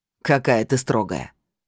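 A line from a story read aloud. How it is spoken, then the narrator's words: Chuckling. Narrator (Russian): хохотнул он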